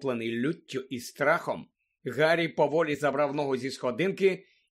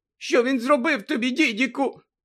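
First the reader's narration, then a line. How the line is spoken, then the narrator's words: Trembling voice. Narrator (Ukrainian): спитала тремтячим голосом тітка Петунія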